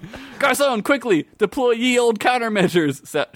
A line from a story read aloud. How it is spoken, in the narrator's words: shouted Zeke